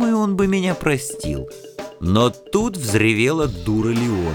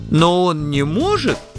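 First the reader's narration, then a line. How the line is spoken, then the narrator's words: Timid objection. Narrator (Russian): робко возразил Плимутрок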